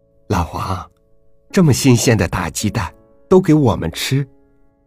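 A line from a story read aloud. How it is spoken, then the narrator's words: Forced smile. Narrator (Chinese): 我强笑说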